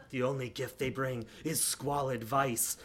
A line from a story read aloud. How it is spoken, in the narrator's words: he muttered